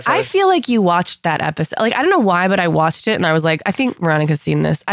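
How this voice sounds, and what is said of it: Sick-sounding voice. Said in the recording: “You can hear it in my voice. I'm so sick.”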